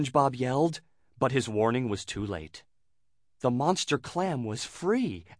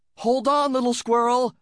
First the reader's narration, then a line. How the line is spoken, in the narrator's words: SpongeBob yelled